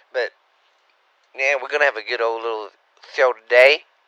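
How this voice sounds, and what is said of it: Slightly sore, strained voice. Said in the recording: “my voice is a little sore. I've been working a lot, yelling at everybody”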